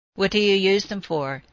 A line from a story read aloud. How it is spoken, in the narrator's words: he asked